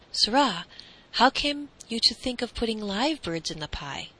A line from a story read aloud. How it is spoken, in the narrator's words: his majesty cried